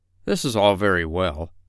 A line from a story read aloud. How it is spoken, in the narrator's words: said the doctor